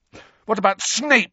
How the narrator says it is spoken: Harry spat

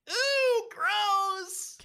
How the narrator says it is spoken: Katie cries

